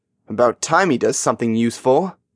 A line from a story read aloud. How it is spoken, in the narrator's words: Jack grumbled